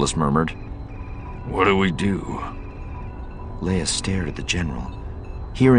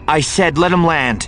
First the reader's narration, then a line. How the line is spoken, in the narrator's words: Leia snapped with more fire than she'd intended